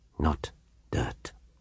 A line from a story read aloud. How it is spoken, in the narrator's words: whispered the Count, in his agitation